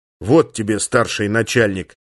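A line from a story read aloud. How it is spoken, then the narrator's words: Angry. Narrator (Russian): зло сказал он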